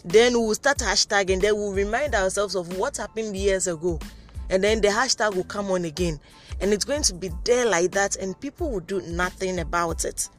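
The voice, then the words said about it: Shouting, emotional voice. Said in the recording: “I'm sorry if I'm shouting, it's like I'm becoming very emotional this evening again.”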